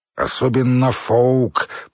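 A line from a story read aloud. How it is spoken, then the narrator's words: Through gritted teeth. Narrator (Russian): процедил Билл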